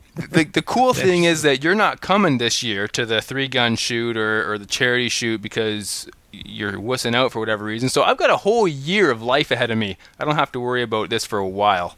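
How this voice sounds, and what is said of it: Regional accent. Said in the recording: “get past your accents. ... You can't get past our accent. ... they've got the same problem I got with your accent.”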